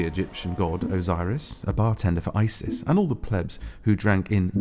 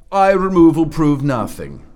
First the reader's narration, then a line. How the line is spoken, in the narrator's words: shouted Osiris